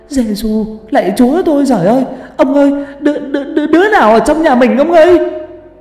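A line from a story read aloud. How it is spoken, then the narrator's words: Panicked shriek. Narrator (Vietnamese): bà rú lên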